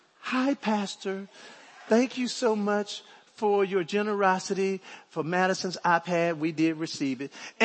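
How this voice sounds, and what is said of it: Sweet voice. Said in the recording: “in her sweet voice”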